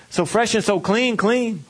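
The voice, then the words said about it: Imitates another person's voice. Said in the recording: “doing my best outcast impression.”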